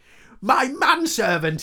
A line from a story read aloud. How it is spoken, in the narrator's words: he bellowed